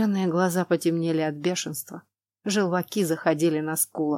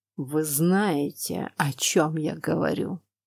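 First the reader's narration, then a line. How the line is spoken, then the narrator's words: Through gritted teeth. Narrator (Russian): Процедил он сквозь зубы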